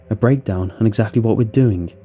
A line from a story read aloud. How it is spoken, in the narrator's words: said, a little hotly